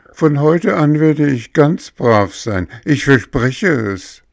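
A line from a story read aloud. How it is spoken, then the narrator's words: Sobbing. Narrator (German): schluchzte Bengele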